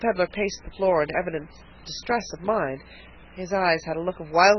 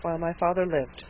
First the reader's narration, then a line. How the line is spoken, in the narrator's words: murmured Harvey, unable to smother his feelings